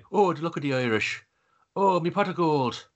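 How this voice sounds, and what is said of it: Put-on Irish accent. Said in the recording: “that is a better Irish accent than Warwick Davis does for the entire fucking film.”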